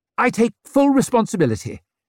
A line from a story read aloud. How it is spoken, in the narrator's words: said far too eagerly and probably very ill-advisedly